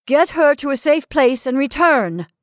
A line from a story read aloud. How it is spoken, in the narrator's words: I shouted